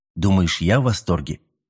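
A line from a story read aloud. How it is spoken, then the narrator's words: Calm. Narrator (Russian): спокойно ответил новозеландец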